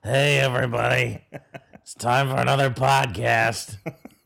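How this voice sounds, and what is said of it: Krusty the Clown character voice. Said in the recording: “It's kind of a Krusty the Clown intro ... Krusty the Clown podcast”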